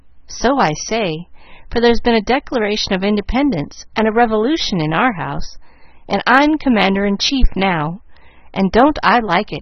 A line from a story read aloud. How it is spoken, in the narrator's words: cried Molly, complacently